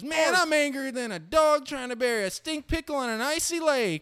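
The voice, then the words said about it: Put-on redneck accent. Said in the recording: “he said it in a redneck accent.”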